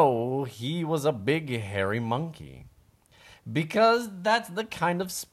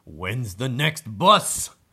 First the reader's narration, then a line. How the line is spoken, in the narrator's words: He grunted